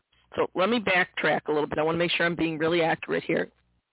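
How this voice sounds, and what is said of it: Voice in poor condition. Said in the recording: “I'm in a bad voice today, folks.”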